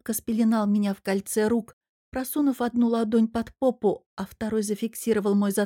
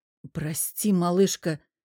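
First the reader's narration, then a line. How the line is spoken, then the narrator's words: Breathy sigh. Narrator (Russian): собирая слезинки губами, выдохнул Мирон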